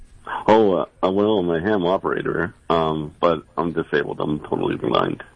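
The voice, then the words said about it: Deep resonant radio voice. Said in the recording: “you have a radio voice... Your voice is amazing. You got a great voice.”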